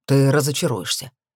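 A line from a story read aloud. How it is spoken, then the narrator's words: Scoffing. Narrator (Russian): хмыкнул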